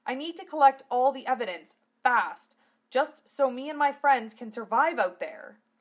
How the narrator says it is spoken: Lena cried out

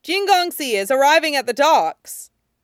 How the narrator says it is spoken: Someone called out

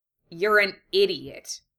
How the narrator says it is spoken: he scoffed

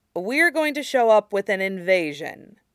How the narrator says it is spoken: Sokka said dryly

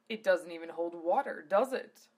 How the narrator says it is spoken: Zelos asked in an amused tone

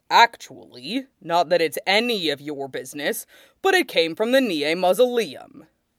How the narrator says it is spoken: Nie Mingtui says coldly

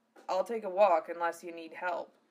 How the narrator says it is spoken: Val said in a low voice

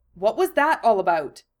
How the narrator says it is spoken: asked sternly

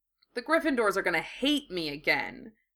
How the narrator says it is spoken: Harry said miserably

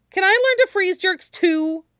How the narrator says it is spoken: Jinhai said eagerly

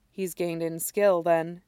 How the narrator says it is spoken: says quietly

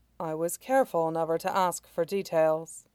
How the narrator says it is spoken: Mei Xiang said calmly

